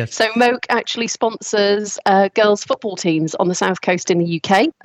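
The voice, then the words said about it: Noticeable non-American accent. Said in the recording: “The accent gave it away.”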